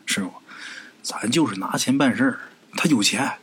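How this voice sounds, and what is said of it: Quiet, hushed voice. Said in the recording (Chinese): “小声跟他师傅说”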